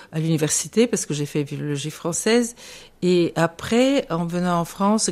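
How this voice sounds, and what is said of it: Foreign accent in French. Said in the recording (French): “j'entends mon accent”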